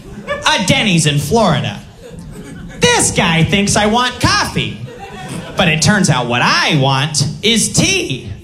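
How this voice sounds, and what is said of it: Imitates a police-video show guy. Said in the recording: “my impression of ... a guy from World Wildest Police videos telling his friend that he got the wrong drink that morning at breakfast”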